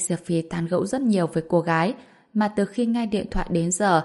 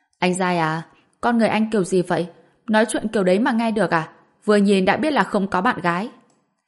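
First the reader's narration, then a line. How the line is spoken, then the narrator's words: Angry woman. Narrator (Vietnamese): Cô gái nghe xong thì tức giận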